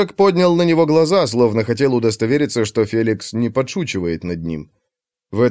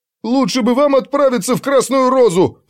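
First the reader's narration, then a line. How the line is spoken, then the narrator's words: Yelling. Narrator (Russian): завопил Улли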